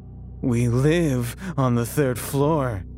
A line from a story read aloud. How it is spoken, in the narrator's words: he said mockingly